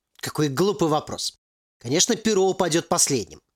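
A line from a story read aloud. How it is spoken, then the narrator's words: Irritated AI. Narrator (Russian): раздраженно ответил ИИ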